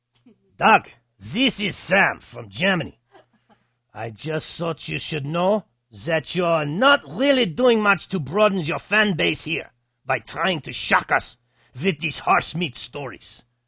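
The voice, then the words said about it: Put-on German accent. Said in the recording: “I'm going to choose to do this in a German accent”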